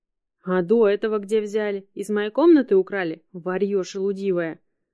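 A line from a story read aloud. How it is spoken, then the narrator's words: Loud hiss. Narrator (Russian): громко зашипела чума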